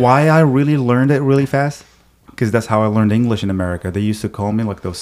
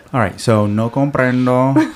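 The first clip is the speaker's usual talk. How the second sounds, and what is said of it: Put-on Indian accent. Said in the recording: “I don't know why the Indian accent just came out.”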